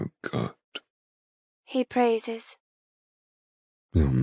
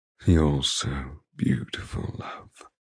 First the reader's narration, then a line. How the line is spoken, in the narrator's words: he murmurs